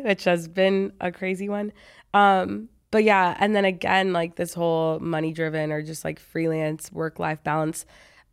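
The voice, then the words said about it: Sick-sounding voice. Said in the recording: “I'm pretty sick right now, as you can probably tell from my voice”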